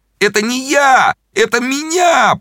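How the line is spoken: Pained moan. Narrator (Russian): простонал Зайчиков, держась за руку

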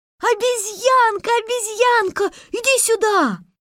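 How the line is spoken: Children shouting. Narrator (Russian): все ребята закричали

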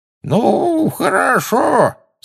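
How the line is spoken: Quavering old man's voice. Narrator (Russian): сказал он дребезжащим старческим голоском

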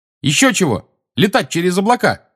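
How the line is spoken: Angry shout. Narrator (Russian): сердито крикнула ему Тонкс

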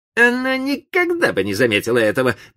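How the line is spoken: Grumbling to himself. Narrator (Russian): проворчал он про себя

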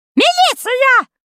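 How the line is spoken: Woman's shrill shriek. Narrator (Russian): завизжала тетенька

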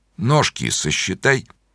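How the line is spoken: Quiet. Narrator (Russian): тихо сказал он

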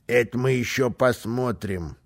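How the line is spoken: Calm. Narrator (Russian): спокойно сказал Карлсон

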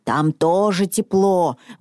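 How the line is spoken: Muttering to himself. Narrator (Russian): бормотал он себе под нос

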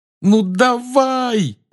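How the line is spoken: Desperate yell. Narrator (Russian): отчаянно завопил он

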